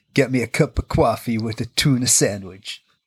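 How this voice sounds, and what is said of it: Bad put-on New York accent. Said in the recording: “what's your New York one? ... That is awful. ... it probably don't even sound like that. ... It is just genuinely awful. ... I have just made them sound like a 1940s gangster.”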